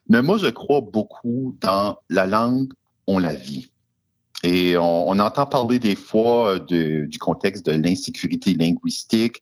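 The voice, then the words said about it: Slight France French accent. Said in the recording (French): “j'ai un accent un peu français ... la mère de mes enfants est française de France, alors j'ai pris un petit peu l'accent”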